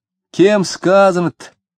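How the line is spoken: Cheerful question. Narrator (Russian): весело спрашивал Фроленков

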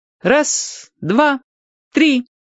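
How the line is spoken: Ringing child's voice. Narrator (Russian): начал считать Юрчик звонким своим голоском

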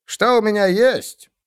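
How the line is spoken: Barked. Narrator (Russian): рявкнул хирург

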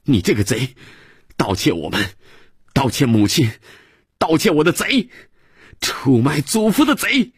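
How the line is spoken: Angry child shouting. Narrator (Chinese): 孩子 气哼哼地又喊

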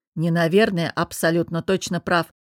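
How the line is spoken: Interrupting snort. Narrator (Russian): перебив, фыркнул он

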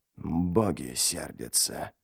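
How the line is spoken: Gloomy mutter. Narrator (Russian): пробормотал ничто, хмуро

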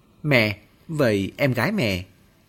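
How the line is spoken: Muttered. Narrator (Vietnamese): Cô lầm bầm

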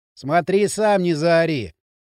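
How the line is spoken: Muttered. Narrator (Russian): пробурчал Дрын

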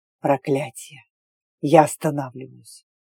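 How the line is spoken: Hiss. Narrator (Russian): Прошипел он

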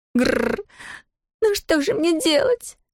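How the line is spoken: Moaning. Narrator (Russian): простонала она

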